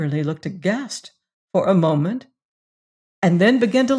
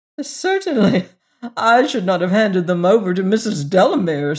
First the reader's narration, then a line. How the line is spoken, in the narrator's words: said Averley with a fresh burst of laughter